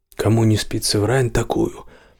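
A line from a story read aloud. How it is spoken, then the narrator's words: Hoarse question. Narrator (Russian): спросит она хриплым голосом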